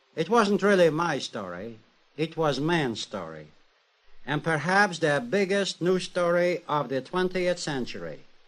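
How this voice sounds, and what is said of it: Slight European and Harvard accent. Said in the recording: “a slight accent. A little European and a little Harvard”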